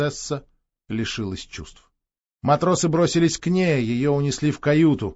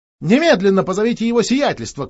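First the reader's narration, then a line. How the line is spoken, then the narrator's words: Shouted. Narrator (Russian): крикнула принцесса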